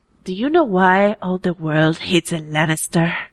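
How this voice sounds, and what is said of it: Impression of a TV character. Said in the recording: “do a Martell impression ... that's my Oberyn Martell impression ... That's good.”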